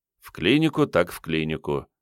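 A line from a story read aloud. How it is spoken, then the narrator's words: Sighing. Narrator (Russian): вздохнул начальник КП-29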